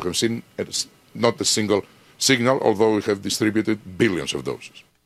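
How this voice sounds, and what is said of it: Thick Greek accent. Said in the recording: “accent is so thick that English-speaking countries won't be able to know what he's saying ... it was Greek”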